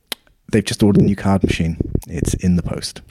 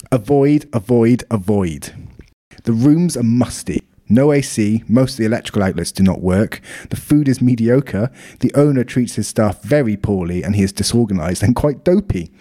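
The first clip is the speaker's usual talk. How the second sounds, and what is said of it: Put-on South African accent. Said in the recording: “I'll do it in a South African accent because I imagine he's a Saffa.”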